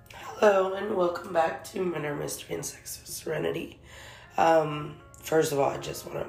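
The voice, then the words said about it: Hoarse, strained voice. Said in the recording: “apologize for my voice. I am losing my voice.”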